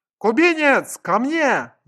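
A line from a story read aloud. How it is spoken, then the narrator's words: Agonized desperate scream. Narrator (Russian): заорал я истошным голосом, словно лежал на операционном столе, а хирурги резали меня без наркоза тупыми скальпелями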